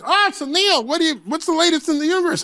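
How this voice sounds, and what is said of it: Imitates another person's voice, poorly. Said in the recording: “that's a terrible Leno impression.”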